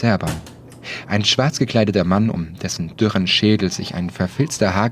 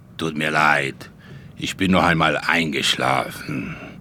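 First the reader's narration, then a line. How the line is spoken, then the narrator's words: Old man croaking. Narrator (German): krächzte Großonkel Wladimir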